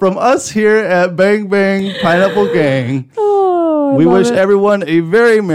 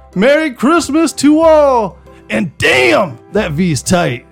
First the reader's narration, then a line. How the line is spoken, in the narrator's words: exclaim